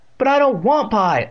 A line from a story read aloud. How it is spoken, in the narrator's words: Evan wailed